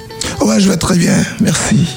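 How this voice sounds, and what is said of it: Hoarse, raspy voice. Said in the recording (French): “c'est la voix cassée dès le matin? ... c'est la voix cassée du chanteur.”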